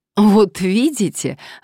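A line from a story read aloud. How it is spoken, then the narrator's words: Joyfully chiming in. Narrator (Russian): радостно подхватил адвокат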